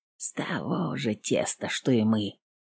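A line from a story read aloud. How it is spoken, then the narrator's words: Whisper. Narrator (Russian): прошептал Ванька сырой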